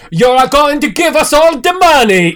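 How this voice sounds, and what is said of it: Nondescript European tracksuit accent. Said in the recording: “What is that accent? ... Nondescript European accents. ... It's a tracksuit accent.”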